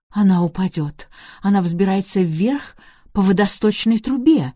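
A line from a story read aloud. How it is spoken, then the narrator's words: Exclaiming. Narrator (Russian): воскликнула мисс Марпл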